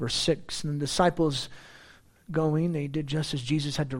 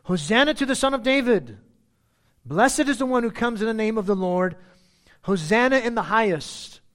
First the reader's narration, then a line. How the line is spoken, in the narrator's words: the multitudes going before him and those who followed after him cried out, saying